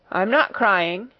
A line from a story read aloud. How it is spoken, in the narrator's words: answered Ermengarde, in a muffled, unsteady voice